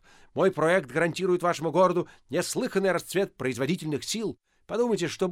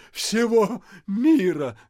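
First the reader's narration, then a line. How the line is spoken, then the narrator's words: Stunned crowd groaning. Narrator (Russian): застонали оглушенные васюкинцы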